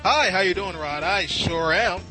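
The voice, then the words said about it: Game show contestant voice. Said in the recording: “do the contestant voice”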